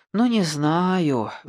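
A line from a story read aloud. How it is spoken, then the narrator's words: Sighing. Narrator (Russian): вздохнул Шамбамбукли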